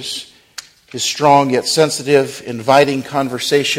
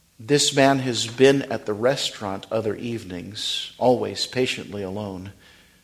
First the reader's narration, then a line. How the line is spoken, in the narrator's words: says the man quietly